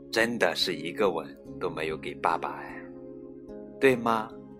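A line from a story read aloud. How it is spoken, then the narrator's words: Sighing. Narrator (Chinese): 说完，叹了口气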